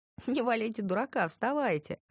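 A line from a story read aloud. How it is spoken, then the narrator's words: Laughing. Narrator (Russian): рассмеялась я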